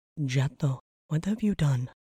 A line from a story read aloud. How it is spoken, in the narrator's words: She breathed